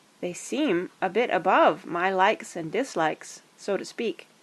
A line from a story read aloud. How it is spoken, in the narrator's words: answered Sam slowly